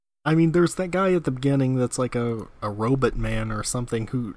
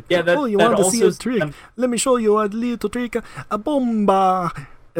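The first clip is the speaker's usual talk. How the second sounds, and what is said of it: Bad put-on Italian accent. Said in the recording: “speaks like in a bad Italian accent”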